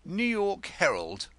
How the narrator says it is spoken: said Denzil sharply

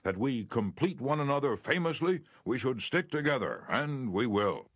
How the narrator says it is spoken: he exclaimed with enthusiasm

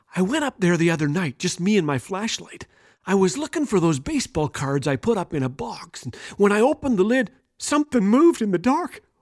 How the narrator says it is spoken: he continued in a soft whisper

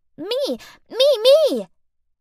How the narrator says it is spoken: she wriggles her arm in the air and squeaks out

